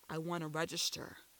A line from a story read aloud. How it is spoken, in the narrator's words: he mumbled low, using accented English